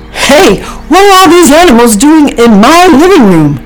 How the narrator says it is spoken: Snyder shouted

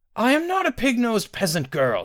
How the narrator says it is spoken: snarled

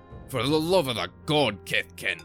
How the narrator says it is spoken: replied Aldor sternly

